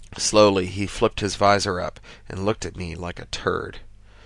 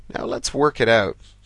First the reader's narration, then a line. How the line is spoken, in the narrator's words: I said, trying to disguise my sigh of relief